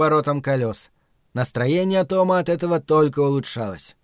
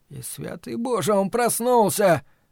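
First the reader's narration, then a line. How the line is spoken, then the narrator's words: Whimpering. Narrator (Russian): Том захныкал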